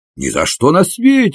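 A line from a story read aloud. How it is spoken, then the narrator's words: Exclaiming. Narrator (Russian): воскликнул он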